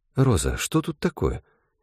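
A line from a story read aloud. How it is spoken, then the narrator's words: Quiet question. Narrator (Russian): негромко спросила заводделом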